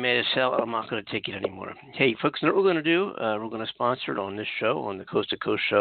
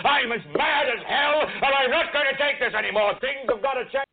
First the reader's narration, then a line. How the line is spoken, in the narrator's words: yell